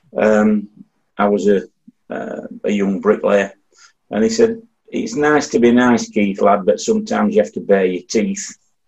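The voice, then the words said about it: Yorkshire English accent. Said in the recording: “in a Yorkshire accent, as you probably tell mine”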